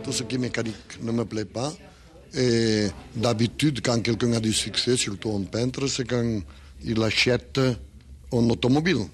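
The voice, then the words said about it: Speaks with a foreign accent. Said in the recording (French): “réentendre l'accent de Salvador Dali”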